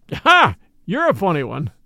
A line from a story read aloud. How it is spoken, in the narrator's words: chuckled the inspector